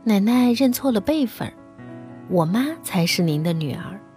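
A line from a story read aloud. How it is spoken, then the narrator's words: Sweet, clever tone. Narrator (Chinese): 小红先是笑，乖巧伶俐地说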